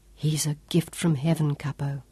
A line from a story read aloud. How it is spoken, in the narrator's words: Sean whispered